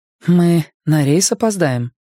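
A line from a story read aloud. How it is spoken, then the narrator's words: Gloomy. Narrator (Russian): мрачно сказала она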